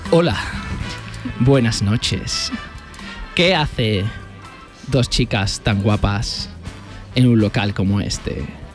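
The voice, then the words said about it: Sensual, seductive voice. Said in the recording (Spanish): “Voy a poner voz de sensual.”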